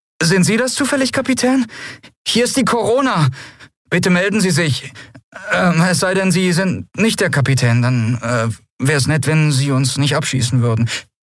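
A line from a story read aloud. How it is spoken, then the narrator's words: Nervous question. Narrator (German): eine nervöse Stimme fragte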